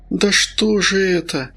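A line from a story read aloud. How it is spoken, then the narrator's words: Groaning. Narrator (Russian): Федор застонал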